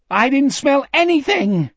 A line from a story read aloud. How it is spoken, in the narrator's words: Jack shouted